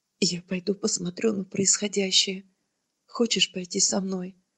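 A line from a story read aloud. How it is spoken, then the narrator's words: Quiet speech. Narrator (Russian): он тихо сказал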